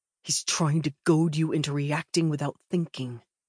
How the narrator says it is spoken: he growls, not bothering to whisper

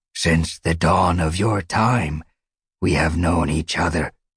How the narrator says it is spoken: Midnight rumbled

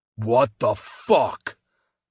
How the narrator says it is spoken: Pierce roared

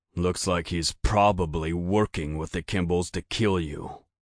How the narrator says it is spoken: Ian grumbled, the tone of a man who'd already said the same thing 20 times

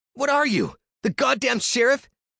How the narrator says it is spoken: spat

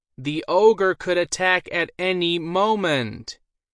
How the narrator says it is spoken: spoke in a louder voice

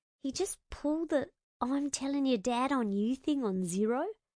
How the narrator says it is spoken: I coughed a bit of a laugh into the shoulder of Jin Young's suit jacket and murmured just loud enough for him to hear

